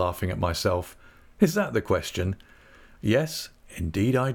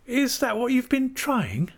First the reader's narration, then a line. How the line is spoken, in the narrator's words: cried Dora